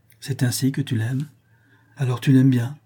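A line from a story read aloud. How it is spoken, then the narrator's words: Sighing. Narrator (French): reprit-elle en soupirant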